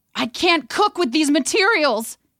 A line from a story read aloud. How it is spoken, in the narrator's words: he shouted